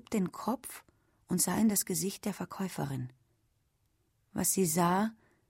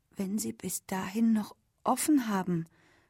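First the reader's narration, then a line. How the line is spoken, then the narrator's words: Stammer. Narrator (German): stammelte Ellen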